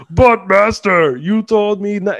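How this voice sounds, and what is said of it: Goldar-style character voice. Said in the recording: “in a Goldar voice. ... Yes, it sounded like gold.”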